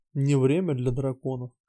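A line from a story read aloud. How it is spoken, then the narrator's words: Whisper. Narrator (Russian): Прошептал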